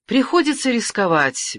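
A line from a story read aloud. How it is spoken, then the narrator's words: Carefree exclamation. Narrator (Russian): беззаботно воскликнул юный адмирал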